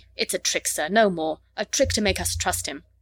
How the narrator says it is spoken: The medic said roughly in Lhari

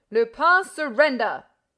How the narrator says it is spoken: roared Ganimard, with his eyes glittering

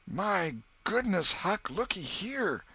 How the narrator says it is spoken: exclaimed

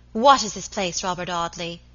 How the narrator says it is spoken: she cried fiercely

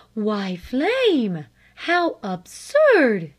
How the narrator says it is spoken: gasped her mother

